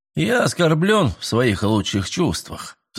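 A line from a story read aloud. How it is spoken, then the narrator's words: Sighing. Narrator (Russian): вздохнул Миллер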